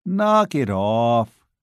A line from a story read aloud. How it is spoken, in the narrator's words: Joe said wearily